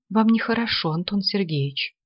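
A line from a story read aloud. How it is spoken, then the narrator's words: Whispering. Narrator (Russian): зашептала она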